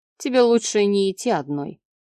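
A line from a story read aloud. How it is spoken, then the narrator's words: Plain. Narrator (Russian): сказал он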